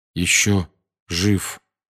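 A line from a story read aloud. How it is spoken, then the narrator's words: Slow. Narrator (Russian): медленно проговорил он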